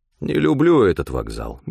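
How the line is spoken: Grumbling. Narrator (Russian): ворчал Стефан

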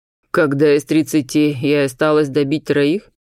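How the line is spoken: Gloomy snort, leader. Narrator (Russian): мрачно хмыкнул предводитель нагов

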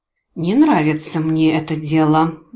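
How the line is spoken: Grim conclusion. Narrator (Russian): мрачно заключила я

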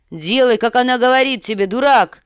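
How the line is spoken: Shout. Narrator (Russian): закричал сир Джорах

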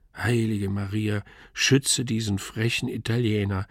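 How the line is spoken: Groaning. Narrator (German): stöhnte ich

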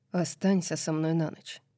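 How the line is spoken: Quiet plea. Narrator (Russian): тихо попросил он

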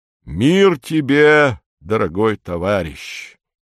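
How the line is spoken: Solemn. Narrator (Russian): произносит он торжественно

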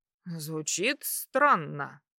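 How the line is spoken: Thoughtful drawl. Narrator (Russian): задумчиво протянул принц

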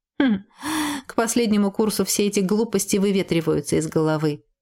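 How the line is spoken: Laughing. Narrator (Russian): рассмеялся Джет

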